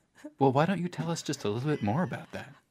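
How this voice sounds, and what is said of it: Mock public radio host voice. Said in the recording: “NPR voice.”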